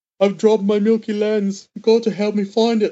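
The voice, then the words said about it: Weird voice imitating Richmond, IT Crowd. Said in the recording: “the way that Richmond talks in the IT Crowd ... Like it's Noel Fielding, but with a weird voice.”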